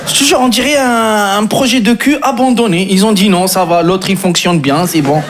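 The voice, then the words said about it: Strong North African French accent. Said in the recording (French): “qu'est-ce qu'il a le sarrasin avec son accent de merde”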